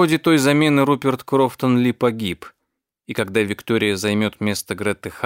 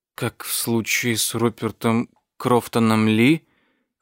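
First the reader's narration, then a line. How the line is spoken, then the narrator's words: Cautious near-whisper. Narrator (Russian): Осторожно, почти шепотом спросила она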